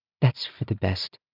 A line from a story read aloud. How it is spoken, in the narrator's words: Mercy said quietly